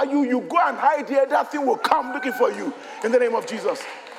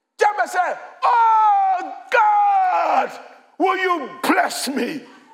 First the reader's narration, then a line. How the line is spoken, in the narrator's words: He cried out